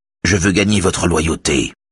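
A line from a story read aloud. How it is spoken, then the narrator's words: Curt reply. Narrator (French): répond sèchement Raphaël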